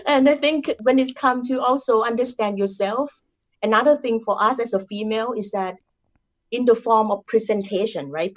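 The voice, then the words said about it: Thai-accented English. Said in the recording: “I'm Thai. I cannot change my accent to be Caucasian accent or European accent. ... I have my Thai accent.”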